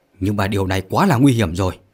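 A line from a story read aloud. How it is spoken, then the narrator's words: Loud shout. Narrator (Vietnamese): Lãnh Vô Tâm hét lớn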